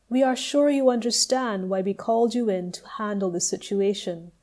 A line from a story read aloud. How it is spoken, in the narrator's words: said the angel